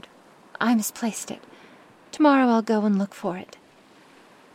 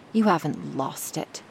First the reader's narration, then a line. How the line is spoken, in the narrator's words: Bluebeard said angrily